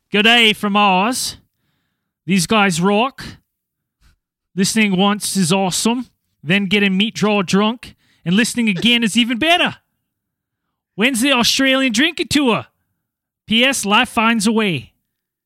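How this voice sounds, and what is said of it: Put-on Australian accent. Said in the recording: “That was my best Aussie accent. ... Yeah, it's pretty good.”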